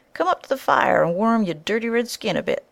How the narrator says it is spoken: cried noisily

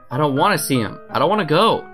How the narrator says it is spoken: Green called him and exclaimed

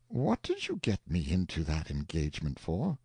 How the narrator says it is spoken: the uncle reproached the nephew gently, saying

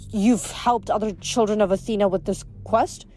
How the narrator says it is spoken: she stammered

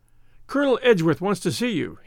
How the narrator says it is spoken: panted

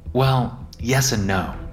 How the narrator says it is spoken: said

